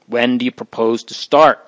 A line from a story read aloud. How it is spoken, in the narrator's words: asked Father Gabriel